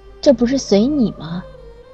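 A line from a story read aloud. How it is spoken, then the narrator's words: Long sigh. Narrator (Chinese): 长长的叹了口气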